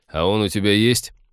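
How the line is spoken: Mocking interruption. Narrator (Russian): насмешливо перебил ее Тед

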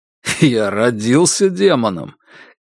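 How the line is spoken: Contemptuous snort. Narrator (Russian): Кай презрительно фыркнул

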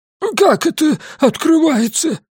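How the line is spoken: Squeaked. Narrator (Russian): пискнул доктор Гарпаго

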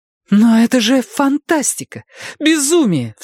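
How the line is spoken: Cry out. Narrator (Russian): вскрикнула Вера

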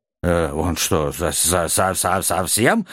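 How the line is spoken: Anxious muttering. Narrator (Russian): беспокойно забормотал маг

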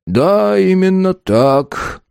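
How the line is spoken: Gloomy. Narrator (Russian): мрачно произнес Энус

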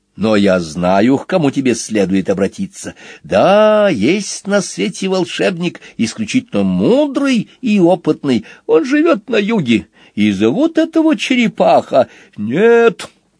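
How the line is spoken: Sudden strong yell. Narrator (Russian): заорал Куати, откуда только силы взялись

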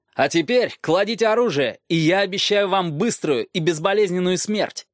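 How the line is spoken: Shouted. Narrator (Russian): выкрикнул Роб

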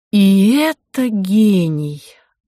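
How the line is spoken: Sighing. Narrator (Russian): вздохнула Анна

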